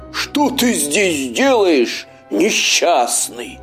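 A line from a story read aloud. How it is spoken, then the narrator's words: Howling wolf. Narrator (Russian): взвыл волк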